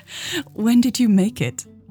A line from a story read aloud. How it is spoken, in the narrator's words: Mary giggled